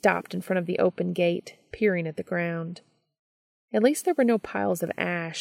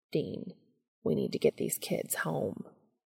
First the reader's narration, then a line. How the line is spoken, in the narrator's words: Cass murmured